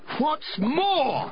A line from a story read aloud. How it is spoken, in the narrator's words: snapped the Lorax